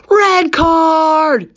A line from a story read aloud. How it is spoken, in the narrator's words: said Dean furiously